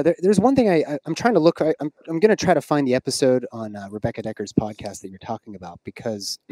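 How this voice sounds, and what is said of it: Calm, smooth radio voice. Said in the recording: “you have a very calming voice ... You have a great radio voice”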